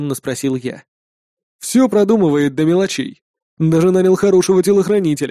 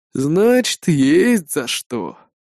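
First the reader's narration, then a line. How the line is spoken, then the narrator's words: Sighing reply. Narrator (Russian): вздохнув, ответил Нил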